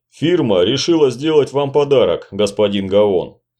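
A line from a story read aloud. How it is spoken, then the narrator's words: Deep bass voice. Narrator (Russian): пробасил между тем сефард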